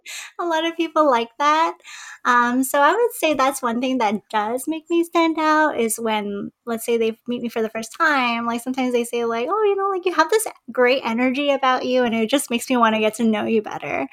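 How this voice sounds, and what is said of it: Soft, babyish voice. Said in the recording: “it's like a lullaby ... my little baby voice ... my voice was like so babyish ... I have such a soft voice”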